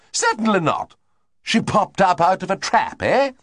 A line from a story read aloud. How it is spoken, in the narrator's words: Lady Constance emitted that sniff of hers which came so near to being a snort